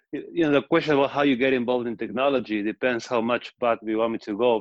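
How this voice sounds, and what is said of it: Argentinian accent. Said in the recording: “So I'm from Argentina. That's the accent.”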